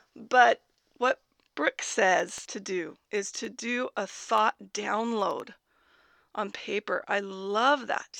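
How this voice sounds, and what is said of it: Raspy, hoarse voice. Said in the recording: “losing my voice a little bit. I have a tiny cold. So hopefully my raspiness”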